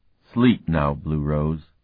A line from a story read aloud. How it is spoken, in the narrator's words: he said gently